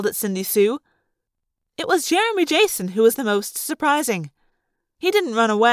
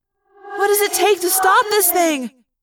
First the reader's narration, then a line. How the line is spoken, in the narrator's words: Cassie asked me desperately